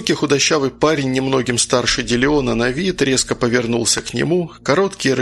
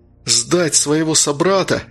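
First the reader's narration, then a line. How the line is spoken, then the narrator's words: Exclamation. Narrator (Russian): воскликнул он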